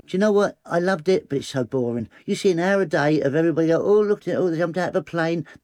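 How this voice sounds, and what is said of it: Southern English accent, high voice. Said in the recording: “You know what I sound like. I'm from south and I've got a high voice”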